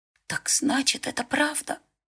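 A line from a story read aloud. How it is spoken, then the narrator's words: Whisper. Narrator (Russian): прошептал Берилл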